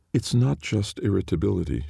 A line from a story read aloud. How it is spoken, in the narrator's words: she pointed out, still somehow keeping her voice calm